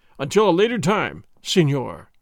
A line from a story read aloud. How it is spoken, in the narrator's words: he cried